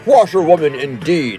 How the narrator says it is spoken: he shouted recklessly

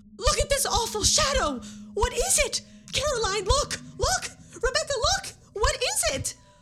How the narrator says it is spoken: suddenly, she shrieked out

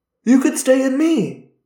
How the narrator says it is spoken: exclaimed

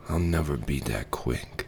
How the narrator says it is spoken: he sighed

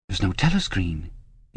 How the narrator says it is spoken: could not help murmuring

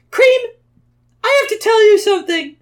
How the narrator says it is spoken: screamed Tails, letting out all of his nervousness

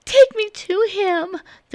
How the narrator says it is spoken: pleaded

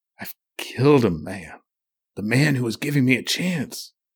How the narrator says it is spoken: he groaned

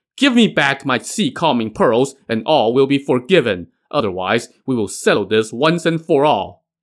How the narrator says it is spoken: As soon as Zhao Gongming saw Burning Lamp, he shouted

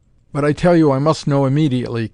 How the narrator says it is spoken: Kay pleaded frantically

